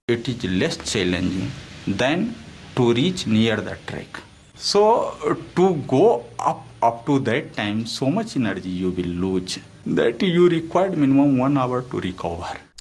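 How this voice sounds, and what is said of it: Indian English accent. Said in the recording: “here are people from India and their English accent”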